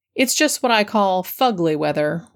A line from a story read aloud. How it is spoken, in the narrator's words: replied the doctor